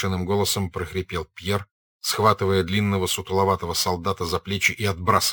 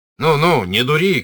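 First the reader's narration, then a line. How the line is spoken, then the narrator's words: Shouting. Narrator (Russian): крикнул он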